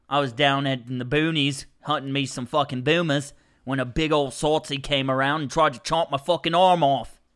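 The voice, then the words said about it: Put-on Australian accent. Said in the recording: “I can kind of do me an Australian accent.”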